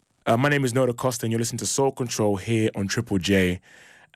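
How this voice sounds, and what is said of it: British accent. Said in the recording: “If you didn't catch by the accent, I'm originally from the UK”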